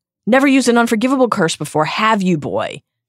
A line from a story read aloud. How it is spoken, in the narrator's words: She yelled